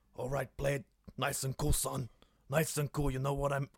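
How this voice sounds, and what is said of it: Imitates another person's voice. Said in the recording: “my latest impression Al Pacino playing Del Boy Trotter”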